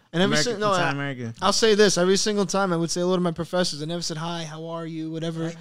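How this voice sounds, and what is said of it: Heavy Brooklyn Italian-American accent. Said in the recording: “It's heavy. It's a heavy accent ... Brooklyn, Italian”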